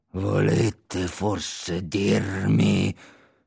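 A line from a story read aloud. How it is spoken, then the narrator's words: Growled in his face. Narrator (Italian): gli ringhiò in faccia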